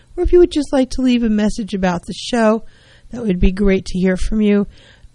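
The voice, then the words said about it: Hoarse, strained voice. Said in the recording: “I think I'm losing my voice today.”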